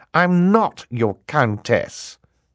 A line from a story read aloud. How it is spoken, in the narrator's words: Violet said testily, a word which here means in an extremely annoyed tone